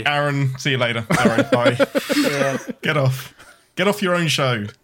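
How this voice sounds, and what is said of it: British English accent. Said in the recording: “a little bit of an accent ... Bit of a twang ... he speaks the king's English ... is from the UK”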